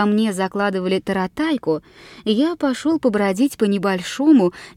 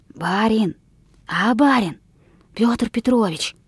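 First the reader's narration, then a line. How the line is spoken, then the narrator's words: Weak slow hoarse voice. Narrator (Russian): послышался мне голос, слабый, медленный и сиплый, как шелест болотной осоки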